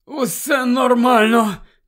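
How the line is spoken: Groaned in pain. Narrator (Ukrainian): простогнав Невіл, хапаючись за живіт

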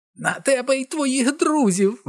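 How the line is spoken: Shrieking cackling witch. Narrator (Ukrainian): верещала регочучи відьма

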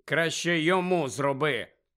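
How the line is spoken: Grumbling mutter. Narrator (Ukrainian): буркнув Фред

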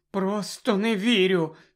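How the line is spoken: Trembling voice. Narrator (Ukrainian): тремтячим голосом сказала Герміона

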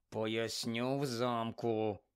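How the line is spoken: Said quietly. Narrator (Ukrainian): тихо сказав Рон

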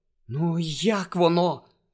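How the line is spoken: Whispered. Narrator (Ukrainian): прошепотіла Герміона

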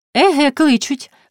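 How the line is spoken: Cheerful female chirping. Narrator (Ukrainian): весело защебетала вона

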